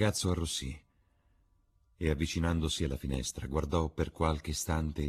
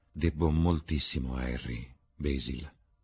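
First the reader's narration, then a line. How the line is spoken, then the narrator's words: Plain. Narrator (Italian): disse alla fine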